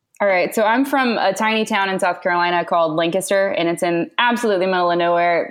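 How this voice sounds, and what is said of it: Noticeable regional accent. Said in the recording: “I love that accent too. That's fantastic.”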